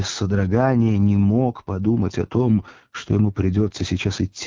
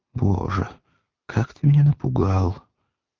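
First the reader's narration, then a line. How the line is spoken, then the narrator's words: Quiet, ingratiating. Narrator (Russian): он улыбнулся, как бы заискивающей улыбкой, и тихо молвил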